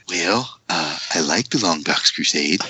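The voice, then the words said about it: Ronald Reagan impression. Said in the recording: “good presidential impersonation. ... That was my Reagan.”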